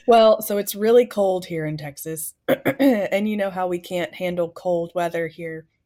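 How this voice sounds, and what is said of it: Voice sounds rough and strained. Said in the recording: “my voice sounds terrible”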